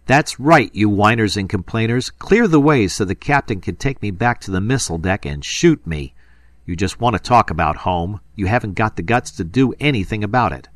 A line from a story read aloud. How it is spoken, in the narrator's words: Suddenly Kramer shouted